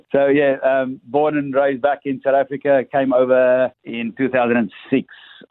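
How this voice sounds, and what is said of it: Slight South African accent. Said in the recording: “I might have a slight little accent in my voice ... South Africa? ... It's hard to pick up”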